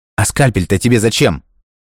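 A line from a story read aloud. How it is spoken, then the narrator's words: Sudden exclamation. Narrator (Russian): Внезапно воскликнул Альберт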